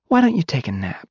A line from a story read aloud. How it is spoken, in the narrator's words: She said sweetly